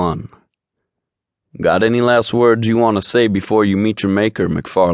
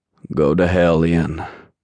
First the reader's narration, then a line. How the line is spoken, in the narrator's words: Gabe rasped